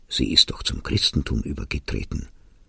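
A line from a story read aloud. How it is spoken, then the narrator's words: Abbot speaking quietly. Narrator (German): sagte der Abt leise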